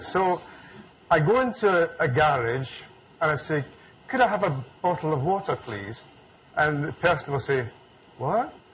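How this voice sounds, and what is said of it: Scottish accent. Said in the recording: “is it my accent? ... I'll let you get used to my accent ... you Americans ... don't understand the Scottish accent”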